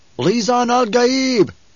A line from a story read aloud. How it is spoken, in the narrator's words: One cried out